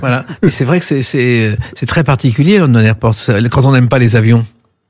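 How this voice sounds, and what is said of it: Niçois French accent. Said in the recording (French): “cet accent niçois”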